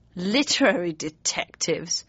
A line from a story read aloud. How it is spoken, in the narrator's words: he sneered